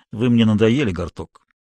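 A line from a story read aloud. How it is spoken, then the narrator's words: Dry. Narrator (Russian): Флогерк сухо сказал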